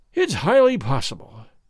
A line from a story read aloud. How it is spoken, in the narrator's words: said he, sighing